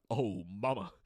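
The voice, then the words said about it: Impression of cartoon character Johnny Bravo. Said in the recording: “pretty good impersonation.”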